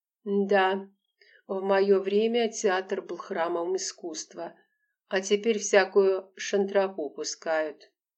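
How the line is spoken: Sighing old actress. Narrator (Russian): вздохнула старая актриса

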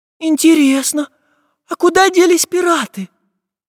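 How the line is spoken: Thin girlish voice. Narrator (Russian): тоненьким голосом спросила Настенька

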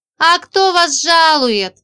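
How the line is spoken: Sighing. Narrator (Russian): вздохнула Женька и добавила

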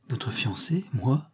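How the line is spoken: Countess murmuring. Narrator (French): murmura la comtesse

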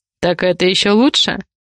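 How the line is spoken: Amused snort. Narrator (Russian): хмыкнул он

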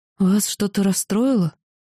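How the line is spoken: Frightened, timid question. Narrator (Russian): Испуганно сглотнув, я только спросила

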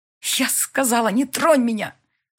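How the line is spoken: Hissing through teeth. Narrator (Russian): Шипит сквозь зубы

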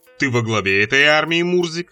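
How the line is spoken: Plain. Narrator (Russian): спросил Болшуну

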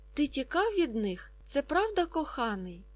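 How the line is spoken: Lively exclamation. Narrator (Ukrainian): Жваво вигукнула Фріда

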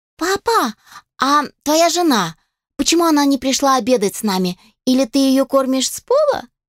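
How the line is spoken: Exclaiming. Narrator (Russian): воскликнула Мария

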